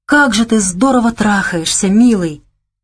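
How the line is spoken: Whispered. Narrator (Russian): прошептала она

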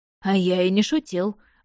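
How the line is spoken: Wry snort. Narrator (Russian): хмыкнул практикующий

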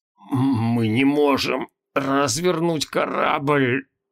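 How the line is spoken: Strained forced words. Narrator (Russian): выдавил Моргнё Мороз

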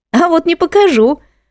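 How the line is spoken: Laughing. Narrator (Russian): рассмеялась Алла

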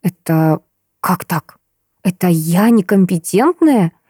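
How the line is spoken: Whisper. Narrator (Russian): я перешла на шепот

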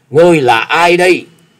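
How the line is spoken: Terrified loud question. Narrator (Vietnamese): Gã Phiền Tăng vô cùng kinh hãi lớn tiếng hỏi

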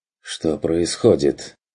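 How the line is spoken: Confused mumble. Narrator (Russian): растерянно пробормотал Бруно

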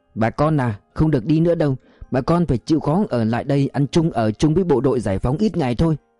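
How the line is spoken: Calm, unhurried voice. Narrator (Vietnamese): giọng anh từ tốn

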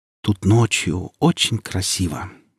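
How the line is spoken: Quiet. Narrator (Russian): тихо сказала Оля

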